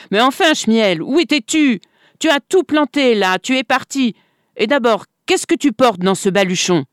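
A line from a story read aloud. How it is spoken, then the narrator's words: Children shouting. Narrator (French): Les enfants l'entourèrent en criant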